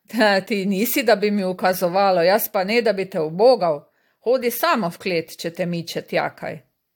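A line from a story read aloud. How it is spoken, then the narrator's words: Laughing. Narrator (Slovenian): Jurko se je zasmejal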